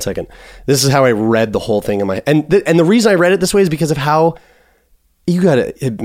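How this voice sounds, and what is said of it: Usual voice. Nothing is said of it.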